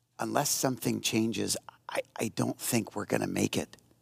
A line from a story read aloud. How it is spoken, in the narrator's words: She slowly whispered to her and said